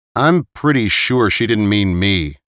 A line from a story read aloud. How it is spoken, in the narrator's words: he said